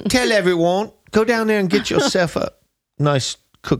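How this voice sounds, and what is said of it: Put-on Cockney accent. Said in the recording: “That's a pretty good accent ... I love your Cockney accent.”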